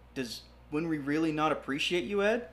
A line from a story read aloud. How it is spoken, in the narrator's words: Alex asked softly